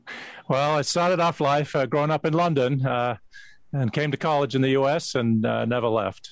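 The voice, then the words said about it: Slight English accent. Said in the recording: “you've got a little bit of that English accent there”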